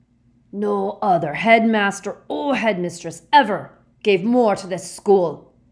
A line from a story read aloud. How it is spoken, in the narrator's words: growled Hagrid